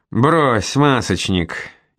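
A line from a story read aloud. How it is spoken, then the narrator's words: Mocking laughter. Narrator (Russian): Издевательски смеясь, графиня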